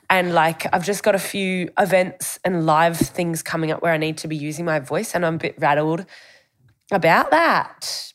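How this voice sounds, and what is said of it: Hoarse, losing voice. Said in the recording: “I've lost my voice too ... I'm losing my voice”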